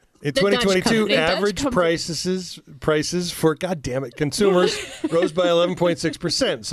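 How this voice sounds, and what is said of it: Usual voice. Nothing is said of it.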